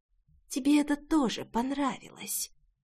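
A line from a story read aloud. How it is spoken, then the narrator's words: Inner whisper. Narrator (Russian): червячок, который шептал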